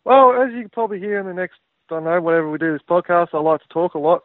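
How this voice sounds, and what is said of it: Speaks with a noticeable accent. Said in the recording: “there's a little bit of an accent going on the other side of the phone”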